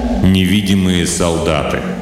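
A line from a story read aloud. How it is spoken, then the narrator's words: Joyless snort. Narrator (Russian): Болл невесело хмыкнул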